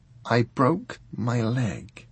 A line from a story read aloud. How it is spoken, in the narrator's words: she told him sadly